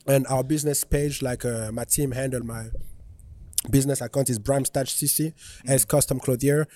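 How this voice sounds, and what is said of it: Thick foreign accent. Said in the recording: “my accent can be thick sometimes”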